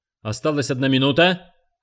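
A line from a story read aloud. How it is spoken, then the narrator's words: Shout. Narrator (Russian): крикнул он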